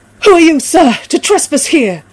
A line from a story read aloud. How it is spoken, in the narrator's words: I cried